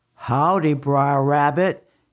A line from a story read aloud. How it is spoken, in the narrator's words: he rumbled